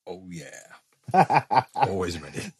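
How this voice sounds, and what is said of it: Impression of a co-host. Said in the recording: “his best Vinks impression.”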